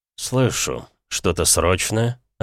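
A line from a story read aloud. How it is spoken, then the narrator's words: Irritated voice. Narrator (Russian): отозвался раздраженным голосом мой покровитель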